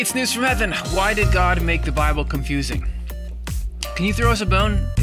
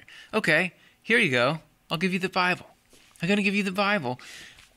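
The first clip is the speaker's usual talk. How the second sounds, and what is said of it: Voicing God as a character. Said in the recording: “impersonating God”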